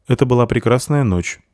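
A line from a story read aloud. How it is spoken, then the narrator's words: Dry. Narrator (Russian): сухо сказал Вар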